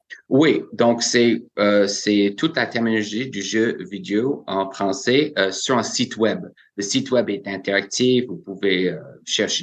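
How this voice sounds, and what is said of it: Quebec French accent. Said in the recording (French): “ils aiment bien euh, entendre mon accent”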